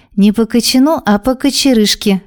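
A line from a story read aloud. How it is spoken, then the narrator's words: Loud laughter. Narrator (Russian): расхохоталась в голос Барби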